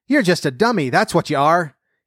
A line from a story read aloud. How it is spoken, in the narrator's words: cried